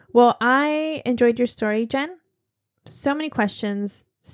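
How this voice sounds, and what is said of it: Usual voice. Nothing is said of it.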